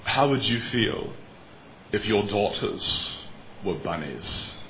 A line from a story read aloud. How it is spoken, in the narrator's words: in his British accent